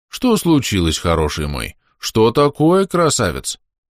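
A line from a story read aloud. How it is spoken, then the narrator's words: Honeyed, measured voice. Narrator (Russian): Мой голос источал мед, но строго определенной концентрацией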